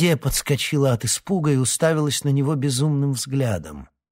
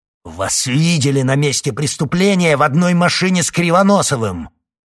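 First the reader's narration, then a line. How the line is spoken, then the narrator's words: Barked shout. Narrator (Russian): Рявкнул оборотень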